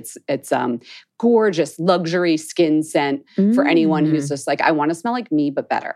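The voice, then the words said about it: Thick Philadelphia accent. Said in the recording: “mine's Philly ... they hear Philadelphia ... My accent is so thick”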